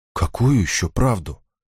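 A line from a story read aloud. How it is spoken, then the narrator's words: Dejected, sinking voice. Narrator (Russian): спросила Реза упавшим голосом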